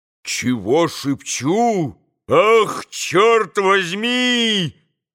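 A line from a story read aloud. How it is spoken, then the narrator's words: Sudden full-voiced shout. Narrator (Russian): крикнул вдруг Дмитрий Федорович самым полным голосом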